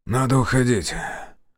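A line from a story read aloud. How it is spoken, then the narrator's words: Suddenly hoarse. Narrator (Russian): внезапно охрипнув, сказал Зотов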